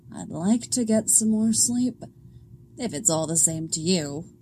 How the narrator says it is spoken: Alana grumbles

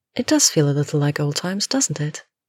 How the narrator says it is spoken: the brunette replies smoothly

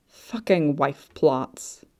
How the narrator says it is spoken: he grumbled to himself

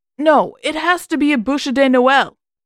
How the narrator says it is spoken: he shouted back

